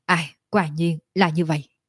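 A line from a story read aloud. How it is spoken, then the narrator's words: Sighing. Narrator (Vietnamese): Tiểu Lôi thở dài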